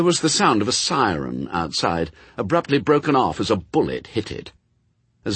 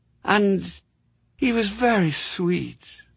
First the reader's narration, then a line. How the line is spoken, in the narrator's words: said Mary Hodges wistfully